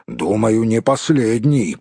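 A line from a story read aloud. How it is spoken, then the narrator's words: Grumbled. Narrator (Russian): пробурчал Том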